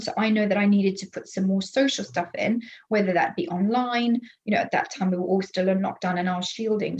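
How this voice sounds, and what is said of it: Non-native English accent. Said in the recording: “your accent, because I know you are obviously not a native English person”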